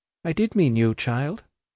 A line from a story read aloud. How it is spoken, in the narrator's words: replied her mistress calmly